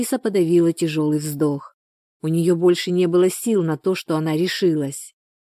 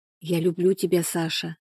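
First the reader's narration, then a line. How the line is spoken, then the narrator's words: Quiet. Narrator (Russian): сказала тихо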